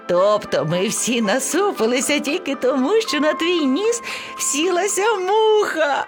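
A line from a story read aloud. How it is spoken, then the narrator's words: Laughing young creature. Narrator (Ukrainian): Сміялося ливеня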